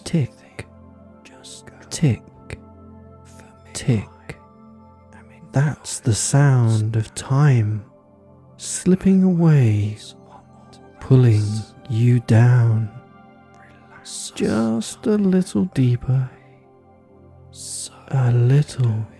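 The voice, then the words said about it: Soft, sleepy, slow voice. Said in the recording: “my soft, sleepy, spiraling voice”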